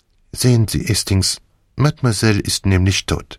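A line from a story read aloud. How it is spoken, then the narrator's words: Very calm, after a pause. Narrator (German): machte eine Pause und sagte dann ganz ruhig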